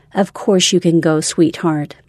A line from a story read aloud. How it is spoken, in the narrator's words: I said